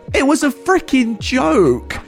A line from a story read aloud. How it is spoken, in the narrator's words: she started screaming